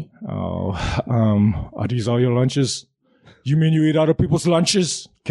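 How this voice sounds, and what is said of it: Movie line in imitated accent. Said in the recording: “How did you know from the accent? ... The accent”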